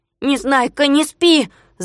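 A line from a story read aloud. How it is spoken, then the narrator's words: Shout. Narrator (Russian): закричал он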